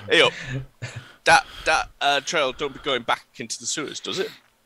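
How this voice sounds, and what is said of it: Inconsistent put-on character accent. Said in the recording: “my accent went all over the place... Don't worry, Russell Crowe.”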